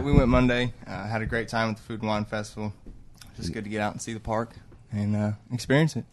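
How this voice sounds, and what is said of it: Slight regional American accent. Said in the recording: “He's got an accent. ... not nearly as bad or as funny as yours. ... He's from Indiana. ... He has an accent, though. ... I do have a small accent.”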